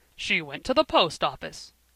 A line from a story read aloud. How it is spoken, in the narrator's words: fiercely, as if they had contradicted him